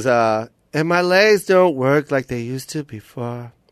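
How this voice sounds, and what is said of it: Sings imitating a singer's accent. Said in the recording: “You don't like that accent?”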